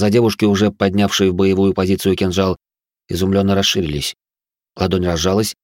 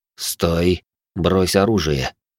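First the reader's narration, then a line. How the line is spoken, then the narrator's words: Quiet, through barely parted lips. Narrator (Russian): почти не разжимая губ, я тихо произнес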